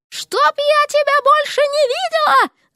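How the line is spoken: Shrill falsetto shriek. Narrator (Russian): завизжала она фальцетом

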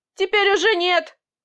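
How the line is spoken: Sarcastic reply. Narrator (Russian): саркастично ответил начальник

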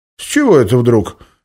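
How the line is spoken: Cheerful voice over phone. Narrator (Russian): весело прозвучало в трубке

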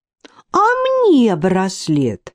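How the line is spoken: Indignant exclamation. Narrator (Russian): возмущенно воскликнула Танечка

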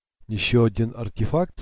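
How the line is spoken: Plain. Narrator (Russian): спросил он

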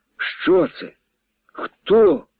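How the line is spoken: Pained young man's cry. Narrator (Ukrainian): Болісно вигукнув поряд Семена парубок степанчанин

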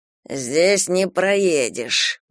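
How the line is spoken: Hissing bandit. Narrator (Russian): прошипел сутулый бандит

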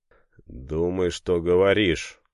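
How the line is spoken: Angry retort. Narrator (Russian): зло бросил Семен

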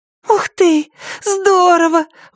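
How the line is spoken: Exclamation. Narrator (Russian): воскликнула Рэйчел

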